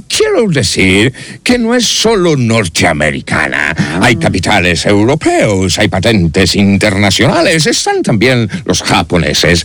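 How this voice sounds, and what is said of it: American accent speaking Spanish. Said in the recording (Spanish): “acento suyo ... Mío, soy americano.”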